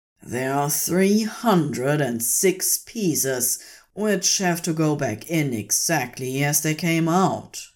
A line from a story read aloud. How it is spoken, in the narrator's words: says fiercely, a steam-like hiss to his voice